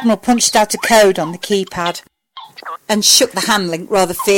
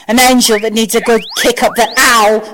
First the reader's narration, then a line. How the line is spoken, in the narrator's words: Sam snapped